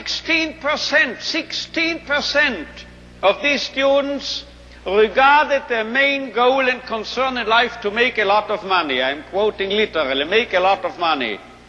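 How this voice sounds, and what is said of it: Strong foreign accent in English. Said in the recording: “I am speaking a marvelous accent without the slightest English”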